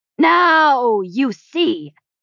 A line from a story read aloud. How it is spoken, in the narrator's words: he bellowed from the floor